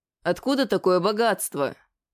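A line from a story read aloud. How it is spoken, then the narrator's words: Distrustful grumble. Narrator (Russian): недоверчиво проворчал я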